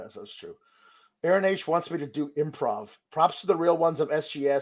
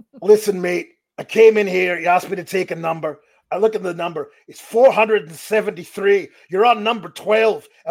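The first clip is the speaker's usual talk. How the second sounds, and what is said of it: Annoyed impression of another person's voice. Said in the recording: “I have a very narrow vocal range right now. I can't drop down. I can't go high. ... my impression ... Drew McIntyre annoyed at the DMV”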